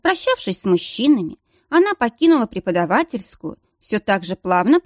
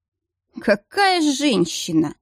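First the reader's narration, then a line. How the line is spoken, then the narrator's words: Snorting. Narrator (Russian): хмыкнул Риден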